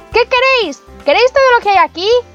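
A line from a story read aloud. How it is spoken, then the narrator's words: Continued shouting. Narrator (Spanish): Pulgarcito continuó gritando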